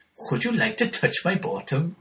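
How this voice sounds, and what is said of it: Put-on Welsh accent. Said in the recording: “The only thing I can say in that Welsh accent is this.”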